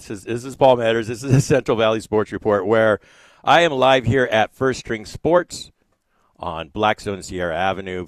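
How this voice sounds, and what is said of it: Unusually low, deep sick voice. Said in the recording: “if my voice sounds a little bit different, a little low, maybe an octave lower than normal ... I've been a little under the weather ... my voice was like this ... this isn't Batman”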